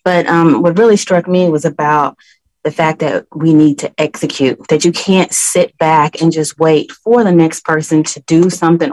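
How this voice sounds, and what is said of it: Whispering. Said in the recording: “I'm at work, so I'm whispering a little.”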